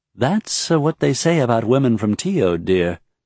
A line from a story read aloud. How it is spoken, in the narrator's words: Deora said calmly